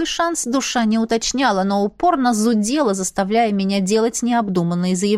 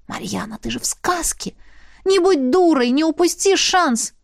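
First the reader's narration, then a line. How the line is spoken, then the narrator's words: Urgent whispering. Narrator (Russian): Она, авантюристка, нашептывала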